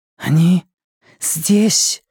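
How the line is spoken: Whispered. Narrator (Russian): прошептала Джеймс

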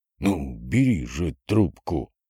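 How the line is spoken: Hissed. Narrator (Russian): шипел он

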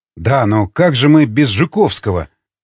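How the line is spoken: Mumbling. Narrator (Russian): промямлил он

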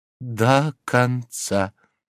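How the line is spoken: Slow speech. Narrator (Russian): медленно проговорила Горбунья

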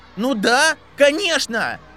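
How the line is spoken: Shouting. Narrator (Russian): кричал Энтони Голдштейн

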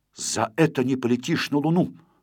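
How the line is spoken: Angry. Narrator (Russian): сердито сверкнув на Незнайку глазами, сказал

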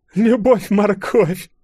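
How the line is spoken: Loud laughter. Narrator (Russian): расхохоталась казак

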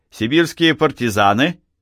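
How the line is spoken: Cheerful question. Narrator (Russian): спросил он весело

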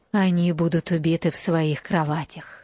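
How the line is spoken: Whisper. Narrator (Russian): прошептала она

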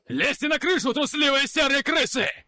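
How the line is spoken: Commander shouting. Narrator (Russian): кричал самый высокий трехглазый, как понимаю, командир

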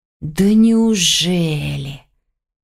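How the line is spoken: Hissing. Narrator (Russian): прошипел гость

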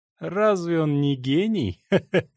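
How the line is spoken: Laughing question. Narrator (Russian): спросил человек в золотой робе и рассмеялся

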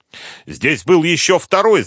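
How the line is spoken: Wounded man shouting from another room. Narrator (Russian): закричал из столовой раненый

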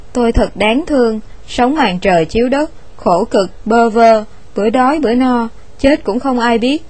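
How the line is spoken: Pitiful stammering. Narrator (Vietnamese): lắp bắp một cách tội nghiệp

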